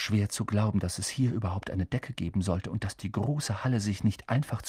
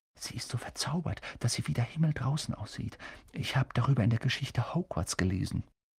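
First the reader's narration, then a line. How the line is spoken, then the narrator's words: Whispering. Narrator (German): Er hörte Hermine flüstern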